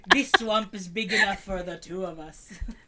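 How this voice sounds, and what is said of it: Bad Scottish accent, Shrek impression. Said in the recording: “That's the worst Scottish accent I've ever heard.”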